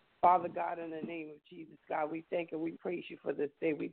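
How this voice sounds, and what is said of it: Slightly raspy voice. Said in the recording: “I had a major cold, and so my voice is so a little raspy”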